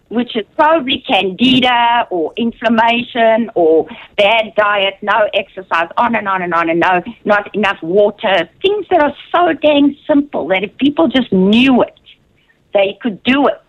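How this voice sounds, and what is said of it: South African accent. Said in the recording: “not losing your South African accent”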